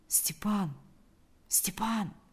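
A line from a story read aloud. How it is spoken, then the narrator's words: Quiet calling. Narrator (Russian): позвал он тихо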